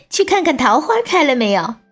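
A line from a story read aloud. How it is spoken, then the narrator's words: Laughing loudly. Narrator (Chinese): 英宁又大笑起来，对婢女说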